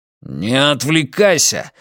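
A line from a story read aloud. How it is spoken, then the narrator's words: Growled command. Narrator (Russian): рыкнул Матиас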